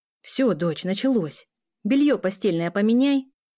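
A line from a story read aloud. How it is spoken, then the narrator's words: Shout. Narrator (Russian): крикнула мама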